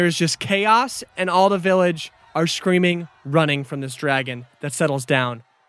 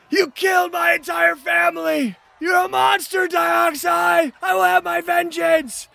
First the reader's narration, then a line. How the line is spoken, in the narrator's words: they're screaming